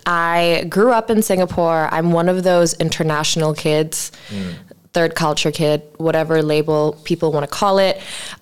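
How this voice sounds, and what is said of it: American-sounding international school accent. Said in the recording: “I have this, you know, international school accent ... But you sound so American.”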